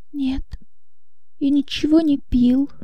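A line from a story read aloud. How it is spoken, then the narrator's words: Barely audible whisper. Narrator (Russian): едва слышно прошептал Иоганн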